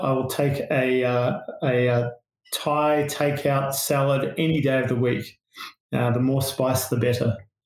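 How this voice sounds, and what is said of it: Australian accent. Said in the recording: “as you can tell from my accent, I'm Australian”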